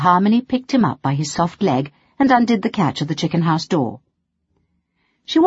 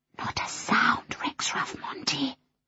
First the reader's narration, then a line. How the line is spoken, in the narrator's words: she whispered